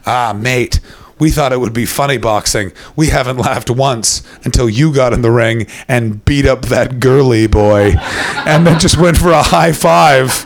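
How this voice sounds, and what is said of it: Thick Northern Irish accent. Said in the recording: “a man with a thick Northern Irish accent walks up to me and just goes”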